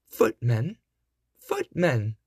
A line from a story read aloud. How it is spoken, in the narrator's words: cried the godmother impatiently